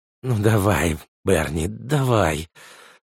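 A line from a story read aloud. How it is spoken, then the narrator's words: Whisper. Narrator (Russian): прошептал кукуратор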